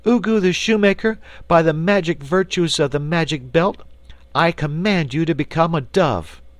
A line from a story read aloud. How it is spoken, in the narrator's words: she cried in a loud voice